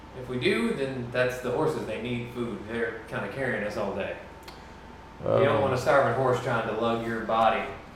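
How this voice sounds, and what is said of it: Accent slips into speech. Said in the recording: “your accent just came out.”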